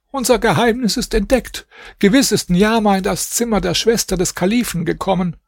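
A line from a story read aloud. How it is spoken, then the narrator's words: Old woman calling out. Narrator (German): Die Alte rief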